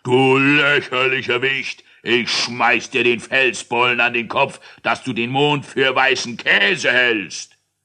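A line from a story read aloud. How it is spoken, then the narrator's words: Roaring. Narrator (German): brüllte er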